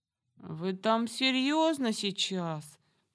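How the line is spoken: Grumbling, from hiding. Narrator (Russian): пробурчала Самара из своего укрытия

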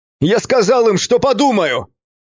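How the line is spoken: Shout, voice breaking. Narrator (Russian): крикнул я, и мой голос сорвался

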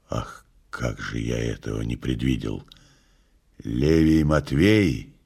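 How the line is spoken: Hoarse, startled. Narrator (Russian): Пилат вздрогнул, сказал хрипло

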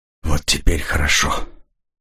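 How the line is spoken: Breathy exhale. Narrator (Russian): выдохнул Ян

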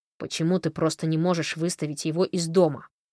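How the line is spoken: Irritated question. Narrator (Russian): раздраженно спросил Фрэнк

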